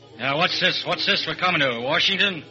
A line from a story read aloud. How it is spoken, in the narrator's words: the fat man shaving in the Pullman washroom grunts